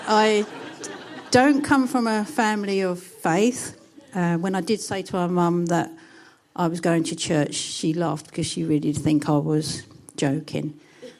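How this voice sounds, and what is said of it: Kent English accent. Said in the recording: “As you can tell from my accent, I'm from an extremely posh part of Kent, which is even posher than Whitstable. It's Chatham.”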